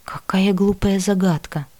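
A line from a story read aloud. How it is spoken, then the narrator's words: Muttered under breath. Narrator (Russian): Пробормотала я вполголоса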